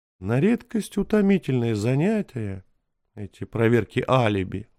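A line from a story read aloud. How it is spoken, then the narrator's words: Sighing. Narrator (Russian): вздохнул Таппенс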